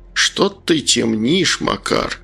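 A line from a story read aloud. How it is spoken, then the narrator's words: Grumbling old man. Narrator (Russian): проворчал пенсионер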